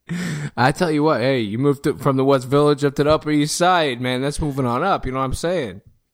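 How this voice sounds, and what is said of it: Thick put-on accent. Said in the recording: “this accent is getting thick”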